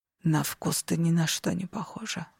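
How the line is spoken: Whisper. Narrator (Russian): прошептал он

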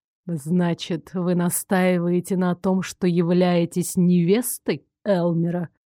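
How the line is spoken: Purring. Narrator (Russian): промурлыкал он

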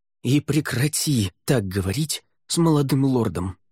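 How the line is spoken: Hiss. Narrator (Russian): прошипел Неррель

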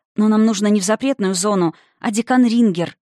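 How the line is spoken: Almost pleading explanation. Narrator (Russian): объяснила почти умоляющим тоном

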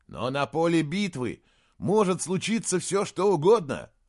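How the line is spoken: Exclaiming. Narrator (Russian): воскликнул Саймон

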